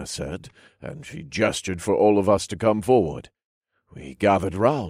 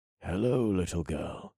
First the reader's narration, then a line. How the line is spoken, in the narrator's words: I whispered with a smile